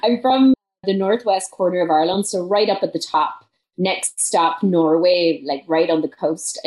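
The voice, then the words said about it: Irish accent. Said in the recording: “you're from Ireland. So you have this wonderful Irish accent”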